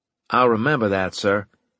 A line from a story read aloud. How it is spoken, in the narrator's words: I said